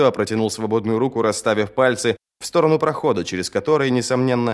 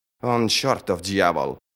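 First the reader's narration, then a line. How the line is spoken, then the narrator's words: Muttering. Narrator (Russian): пробормотала Сумаэль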